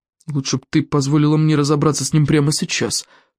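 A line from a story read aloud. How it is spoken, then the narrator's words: Grumbled. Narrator (Russian): пробурчал Элвин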